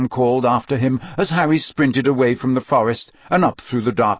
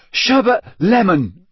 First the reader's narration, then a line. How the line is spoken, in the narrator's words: he panted at it